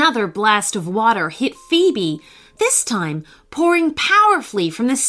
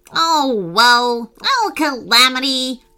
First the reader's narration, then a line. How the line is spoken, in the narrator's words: groaned the monkey